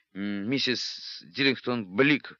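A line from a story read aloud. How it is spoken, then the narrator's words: Choked, sputtering through water. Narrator (Russian): выдавил он из себя, выплевывая слоги вместе с водой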